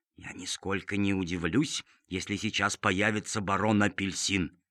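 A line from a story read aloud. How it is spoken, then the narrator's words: Muttered. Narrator (Russian): бормотал сеньор Помидор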